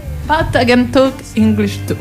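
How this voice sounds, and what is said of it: English with a Roman Italian accent. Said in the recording (Italian): “L'accento romano è importante anche in inglese. ... L'accento de Spinaceto.”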